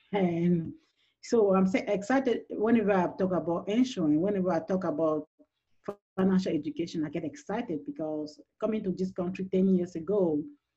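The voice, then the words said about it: French-speaking Cameroonian accent. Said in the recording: “originally from Cameroon, which is the French speaking part, so you can hear my accent.”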